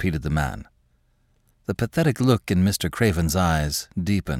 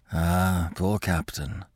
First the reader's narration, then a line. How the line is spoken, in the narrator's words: he murmured